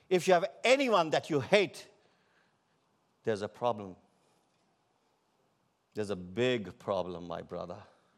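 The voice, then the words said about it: Non-native English accent. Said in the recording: “Don't mind my English, mind the message. ... Don't mind my accent, mind the message.”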